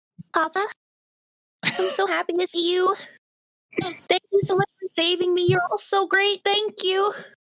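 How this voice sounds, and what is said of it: Little girl voice. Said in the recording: “I'm going to have to do a little girl voice... I can do a little girl voice... Oh, wow. That's really good.”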